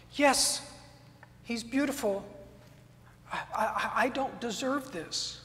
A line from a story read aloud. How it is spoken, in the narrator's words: Simeon choked out the words